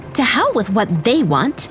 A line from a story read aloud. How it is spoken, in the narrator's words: Elsie snapped